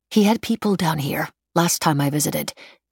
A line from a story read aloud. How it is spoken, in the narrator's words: Emily said